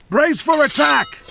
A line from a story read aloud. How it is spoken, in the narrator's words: yelled